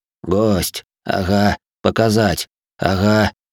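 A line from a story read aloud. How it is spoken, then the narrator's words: Mumbling. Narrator (Russian): пробормотал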